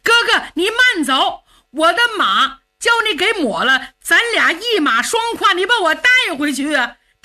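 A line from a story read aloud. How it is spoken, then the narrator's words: Shouting. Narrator (Chinese): 冲着程咬金喊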